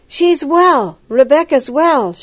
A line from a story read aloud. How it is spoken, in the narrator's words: she exclaimed